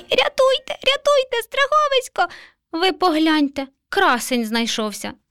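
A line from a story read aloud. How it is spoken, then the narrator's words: Terrified mouse squeak. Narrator (Ukrainian): Мишеня нажахано запищало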